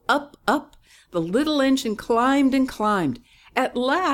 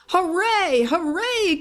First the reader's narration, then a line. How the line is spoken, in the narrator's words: cried the toys